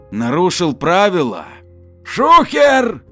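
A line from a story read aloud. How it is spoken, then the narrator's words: Shouted. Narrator (Russian): крикнул Валера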